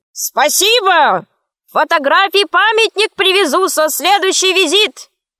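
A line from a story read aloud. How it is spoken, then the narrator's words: Shouted. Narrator (Russian): крикнул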